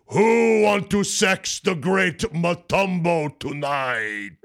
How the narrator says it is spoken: Dikembe simply says in that rich, deep Dikembe voice

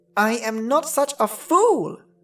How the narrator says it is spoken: cried the dwarf

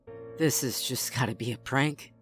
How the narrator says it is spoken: I said under my breath

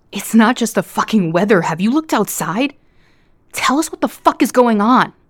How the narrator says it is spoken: a man wearing a Hawaiian shirt screamed

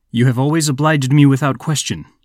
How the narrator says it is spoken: said Twardowski

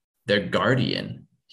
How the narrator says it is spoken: he says

